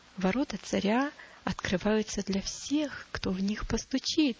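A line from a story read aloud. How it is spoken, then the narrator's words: Plain. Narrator (Russian): ответил доброжелатель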